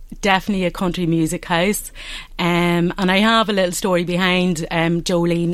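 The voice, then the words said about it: Fermanagh Northern Irish accent. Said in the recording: “I hear the lovely accent there. That's a Fermanagh accent”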